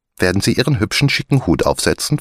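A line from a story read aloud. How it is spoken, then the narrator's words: Plain question. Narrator (German): fragte Maria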